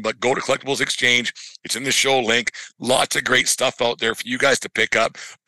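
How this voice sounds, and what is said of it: Voice giving out, hoarse. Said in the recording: “I'm losing my voice here”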